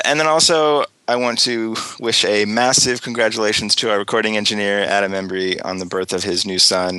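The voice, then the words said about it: Slightly hoarse voice from a cold. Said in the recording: “my voice is a little hoarse. I have a cold”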